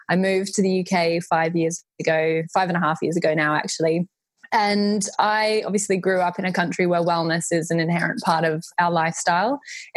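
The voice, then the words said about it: Australian accent. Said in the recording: “I grew up in Australia, and you'll immediately be able to hear from my accent. I'm an Aussie”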